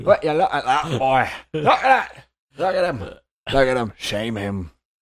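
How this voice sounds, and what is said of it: Muddled put-on accent that fades. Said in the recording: “What was that accent? ... I started off with something. ... Rounded it off at the end with nothing.”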